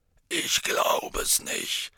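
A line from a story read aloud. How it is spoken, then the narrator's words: Hoarse. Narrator (German): sagte Hagrid heiser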